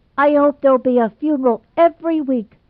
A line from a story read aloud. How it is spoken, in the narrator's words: cried Gerald